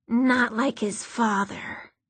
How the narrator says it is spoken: one said, the words as raspy as sandpaper

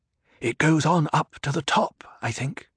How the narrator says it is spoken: he whispered

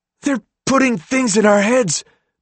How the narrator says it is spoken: Minho called out to him, eyes still wild

